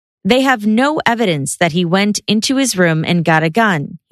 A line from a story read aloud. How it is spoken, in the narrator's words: he said